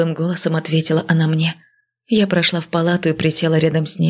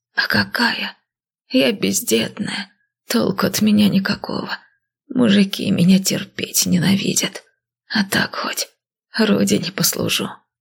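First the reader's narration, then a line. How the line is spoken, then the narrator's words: Flat, colorless voice. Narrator (Russian): бесцветным голосом сообщила она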